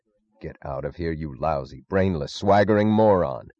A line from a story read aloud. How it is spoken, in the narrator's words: snarled Dr